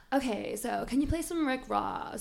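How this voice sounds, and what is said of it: Put-on American accent. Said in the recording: “that's a terrible accent, please don't judge my American accent ... I think it's pretty good”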